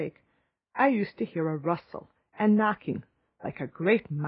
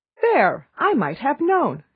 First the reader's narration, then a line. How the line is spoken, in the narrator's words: she exclaimed